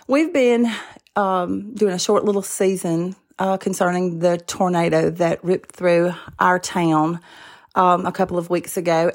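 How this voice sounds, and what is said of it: Hoarse voice, clearing throat. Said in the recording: “I've got a frog in my throat. I'm sorry if I keep clearing my throat.”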